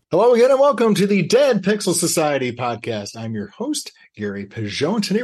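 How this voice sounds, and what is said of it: Put-on radio announcer voice. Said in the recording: “I love your radio voice ... It's not my normal voice ... but I do turn that up when we get started”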